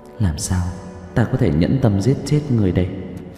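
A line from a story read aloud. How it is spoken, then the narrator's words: Muttering. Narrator (Vietnamese): Dương Cung Tử lẩm bẩm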